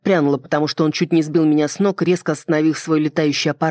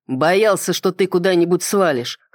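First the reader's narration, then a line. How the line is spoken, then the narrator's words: Snorting chuckle. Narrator (Russian): хмыкнул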